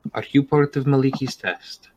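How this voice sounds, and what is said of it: Speaks in a put-on character accent. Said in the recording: “Forgive the accent.”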